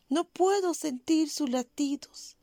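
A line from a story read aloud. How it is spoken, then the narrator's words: Young woman's grieving voice. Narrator (Spanish): exclama la joven con voz dolosa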